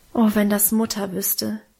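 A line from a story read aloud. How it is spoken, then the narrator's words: Sighed. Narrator (German): seufzte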